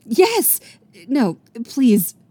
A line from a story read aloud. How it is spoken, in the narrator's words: Rumi blurts out